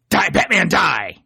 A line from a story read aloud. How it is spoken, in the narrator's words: yelling the very eloquent